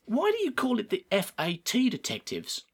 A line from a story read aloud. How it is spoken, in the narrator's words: asked Poppy